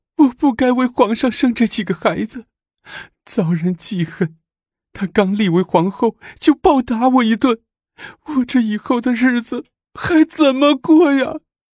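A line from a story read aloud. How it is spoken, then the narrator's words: Aggrieved tearful complaint. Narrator (Chinese): 萧妃 万分委屈的哭诉着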